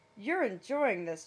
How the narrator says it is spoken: Jack laughed

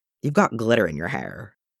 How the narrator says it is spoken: mutters

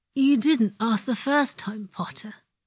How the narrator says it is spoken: Malfoy, flushed and sweaty, eyes slightly crossed, mouth wet and gasping open, says

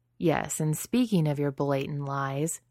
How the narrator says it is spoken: he pauses while she laughs at this

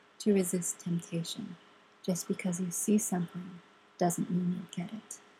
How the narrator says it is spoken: Frodo whispered

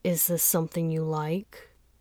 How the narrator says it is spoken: Fangxin mumbled after a while

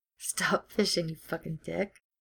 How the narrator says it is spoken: Ed laughs

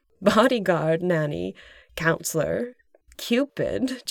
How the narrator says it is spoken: Janine laughed

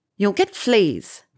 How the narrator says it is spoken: Petunia snapped

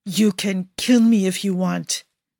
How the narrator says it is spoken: Vittorio growls through clenched teeth

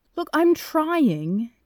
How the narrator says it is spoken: Jack says indignantly

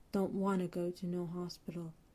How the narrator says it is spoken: Ray is quiet for a moment, and then he whispers

